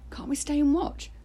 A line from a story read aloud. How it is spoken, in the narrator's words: pleaded